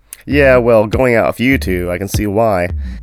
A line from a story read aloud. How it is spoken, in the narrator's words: Dad chuckled